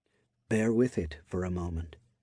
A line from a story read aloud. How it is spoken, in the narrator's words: he whispered to her